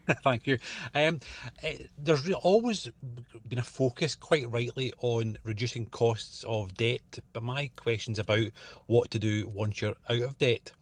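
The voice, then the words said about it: Scottish accent. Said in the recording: “with a Scottish accent”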